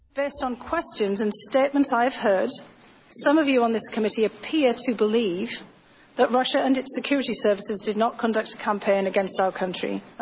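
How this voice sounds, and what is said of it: Charming foreign accent. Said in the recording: “the charming accent”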